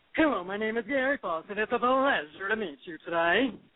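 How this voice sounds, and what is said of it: Very deep man's voice. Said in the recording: “I do this man voice ... really deep ... deep man voice”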